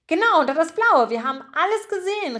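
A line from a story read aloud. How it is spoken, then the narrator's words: Calling out. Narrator (German): rief Gruyère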